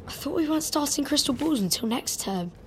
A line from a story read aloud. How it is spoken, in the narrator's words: Ron muttered